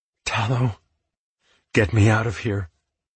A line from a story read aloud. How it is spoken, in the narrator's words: I said breathlessly